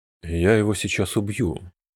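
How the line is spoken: Quiet. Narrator (Russian): тихо сказал Мидориен

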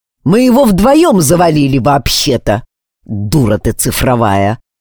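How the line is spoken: Angry retort. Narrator (Russian): Зло бросил

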